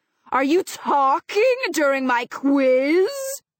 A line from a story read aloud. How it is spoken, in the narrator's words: he bellows, glaring